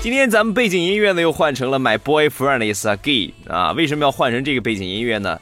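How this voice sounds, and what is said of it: Shandong-accented Mandarin. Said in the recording (Chinese): “操着山东口音”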